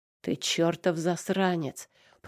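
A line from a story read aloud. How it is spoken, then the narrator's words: Angry growl. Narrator (Russian): прорычал Димас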